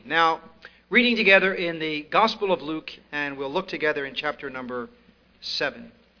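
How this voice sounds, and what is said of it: East Coast American accent. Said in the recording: “getting used to my East Coast accent, which I know is different”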